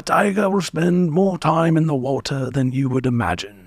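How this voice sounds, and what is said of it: Weighty nature documentary narrator voice. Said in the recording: “really good impression of the guy who does all those documentaries ... It's so weighty”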